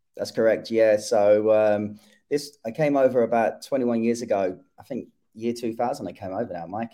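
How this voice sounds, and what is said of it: British accent. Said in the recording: “obviously people are hearing the accent there ... you came from the UK”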